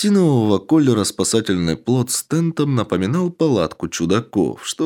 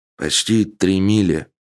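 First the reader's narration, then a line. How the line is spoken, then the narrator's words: Glum report. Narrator (Russian): уныло известил моряк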